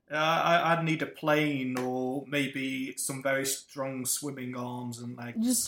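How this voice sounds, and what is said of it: British English accent. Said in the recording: “he's from Britain ... How could people possibly tell I'm British from my accent?”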